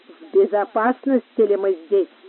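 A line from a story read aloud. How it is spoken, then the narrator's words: Hollow, muffled voice. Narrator (Russian): спросил глухим голосом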